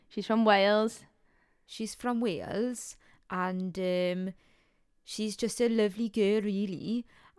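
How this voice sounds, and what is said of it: Put-on Welsh accent. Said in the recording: “in a Welsh accent. Go on.”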